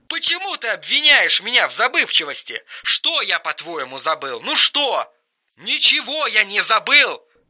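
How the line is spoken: Hoarse straining shout. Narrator (Russian): Хрипел и надрывался Эрик

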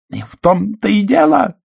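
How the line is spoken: Triumphant exclamation. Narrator (Russian): торжествующе воскликнула Каролайн

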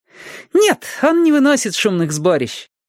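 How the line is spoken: Joyful. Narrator (Russian): радостно сообщила Нина

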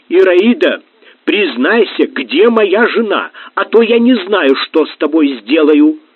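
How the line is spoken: Distant shout. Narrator (Russian): Удалов издали с лестницы крикнул

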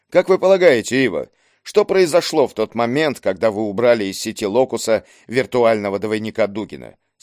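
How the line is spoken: Plain. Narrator (Russian): спросил Леру

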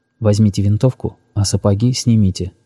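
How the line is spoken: Quiet. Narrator (Russian): тихо сказал он

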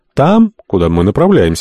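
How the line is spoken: Calm reply. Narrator (Russian): спокойно ответил Альтамонт

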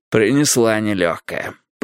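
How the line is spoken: Muttered. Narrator (Russian): пробормотал Страйк

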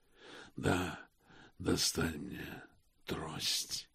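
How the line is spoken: Muttered. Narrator (Russian): пробормотал Космо

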